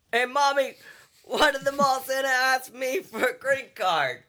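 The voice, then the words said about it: Put-on Italian-to-Boston accent. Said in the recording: “That started off Italian. ... ended in despair. ... I was going for more of like a Boston thing.”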